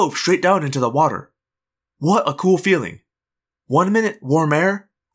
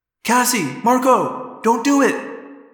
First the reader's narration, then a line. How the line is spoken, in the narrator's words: yelled in thought speak